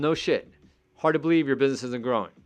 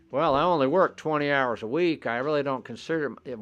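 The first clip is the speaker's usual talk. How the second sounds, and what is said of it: Put-on Southern American accent. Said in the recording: “Why do I always use this Southern accent when I'm trying to make somebody sound stupid? That's pretty bad.”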